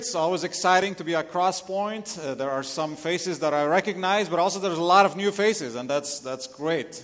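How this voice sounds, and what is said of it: Lebanese accent. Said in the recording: “where my accent is from, I'm Lebanese.”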